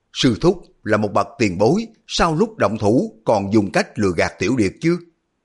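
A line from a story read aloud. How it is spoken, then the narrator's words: Shocked, angry cry. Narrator (Vietnamese): Hư Trúc vừa kinh hãi vừa tức giận la lên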